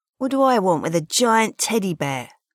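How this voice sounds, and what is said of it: Thick South London accent. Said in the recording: “asked in a thick South London accent”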